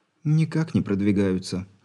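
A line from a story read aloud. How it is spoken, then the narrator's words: Girl sighs. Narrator (Russian): вздохнула девушка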